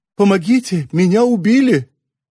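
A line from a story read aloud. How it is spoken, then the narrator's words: Thin little voice. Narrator (Russian): тоненьким голоском говорит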